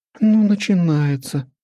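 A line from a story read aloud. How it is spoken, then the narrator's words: Sad sigh. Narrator (Russian): печально вздохнула Алиса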